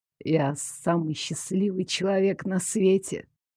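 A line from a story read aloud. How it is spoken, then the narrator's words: Sleepy mumble. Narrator (Russian): Сонно пробормотал он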